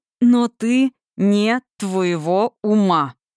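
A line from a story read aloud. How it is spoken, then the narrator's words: Gritted, stressing each word. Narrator (Russian): процедил он, выделяя каждое слово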